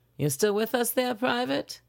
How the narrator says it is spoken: She asked in a crackly voice

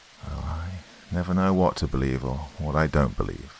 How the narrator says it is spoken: answered gravely

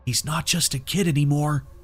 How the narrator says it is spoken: Nick whispered

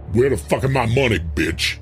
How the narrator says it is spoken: He snarled

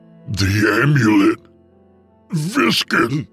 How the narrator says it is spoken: croaked in a harsh voice

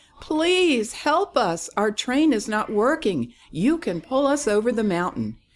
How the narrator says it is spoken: The toys called out

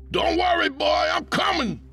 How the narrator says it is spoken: Papa yelled frantically

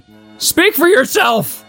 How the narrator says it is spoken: Olaf wailed

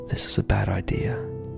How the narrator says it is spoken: Startled and on edge, James muttered

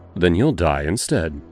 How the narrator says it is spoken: I said simply, my voice cold as ice

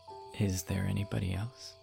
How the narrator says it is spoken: He asked at last in a low voice

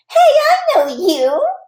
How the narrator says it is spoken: she said real giggly

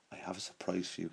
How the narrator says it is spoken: he whispered to Amy

